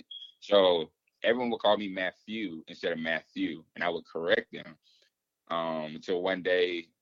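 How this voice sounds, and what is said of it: Southern drawl accent. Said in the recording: “growing up in the South, as you know, we have a draw. We have accent.”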